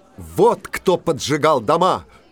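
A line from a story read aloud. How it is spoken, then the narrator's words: Shout. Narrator (Russian): крикнул Иван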